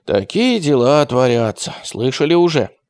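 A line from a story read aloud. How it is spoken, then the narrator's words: Muffled whisper. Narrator (Russian): прикрыла рот уголком платка и прошептала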